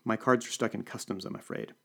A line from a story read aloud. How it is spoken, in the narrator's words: I said